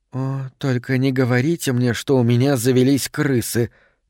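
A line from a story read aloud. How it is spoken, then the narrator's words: Whisper. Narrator (Russian): прошептала она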